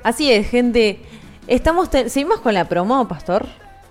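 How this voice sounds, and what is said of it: Female radio announcer voice. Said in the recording (Spanish): “pongo voz ... Pongo voz de locutora.”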